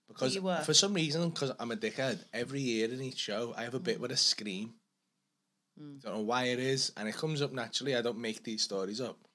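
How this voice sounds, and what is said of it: Strained, worn-out hoarse voice. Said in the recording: “I've done three shows tonight and my voice is fucked.”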